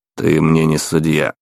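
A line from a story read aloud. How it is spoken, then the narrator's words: Icy cold tone. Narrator (Russian): тем же ледяным тоном ответил наследник лорда Маккейн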